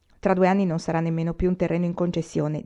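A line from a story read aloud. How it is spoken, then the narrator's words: Plain. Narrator (Italian): disse papà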